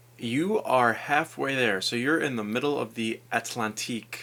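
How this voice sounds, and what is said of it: Usual voice. Nothing is said of it.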